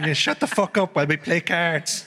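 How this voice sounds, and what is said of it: A good put-on accent. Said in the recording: “It's another good accent. We've all done good accents.”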